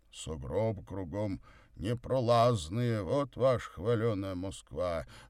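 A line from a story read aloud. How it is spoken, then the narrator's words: Grumbling. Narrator (Russian): ворчал Горький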